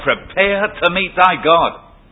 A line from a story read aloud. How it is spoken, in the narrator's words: she cried out